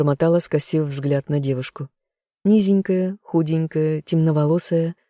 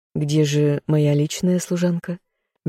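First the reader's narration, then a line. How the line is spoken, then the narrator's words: Soft, ingratiating. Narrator (Russian): Мягко, вкрадчиво уточнила я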